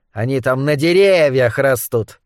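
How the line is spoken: Sarcastic purr. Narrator (Russian): саркастически мурлыкнул Моррис

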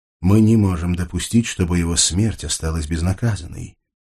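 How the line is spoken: Muffled whisper. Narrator (Russian): глухо прошептал белый ангел

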